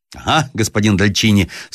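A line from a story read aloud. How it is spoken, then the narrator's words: Shouting with loud laughter. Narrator (Russian): вскричал с громким хохотом Шамбюр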